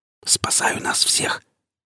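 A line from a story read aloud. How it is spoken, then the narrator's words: Quiet exhale. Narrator (Russian): Так же тихо выдохнул я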